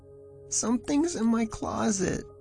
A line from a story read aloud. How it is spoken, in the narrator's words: he whimpered, voice trembling